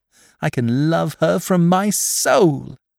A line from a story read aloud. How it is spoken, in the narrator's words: exclaimed the blind girl